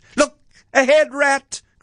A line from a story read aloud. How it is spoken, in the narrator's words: cried the Mole suddenly